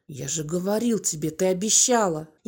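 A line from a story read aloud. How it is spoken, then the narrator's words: Low hiss. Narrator (Russian): Понизив голос, он прошипел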